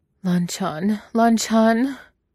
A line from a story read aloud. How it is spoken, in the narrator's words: he cries, teeth chattering from the force of Longwangji's thrusts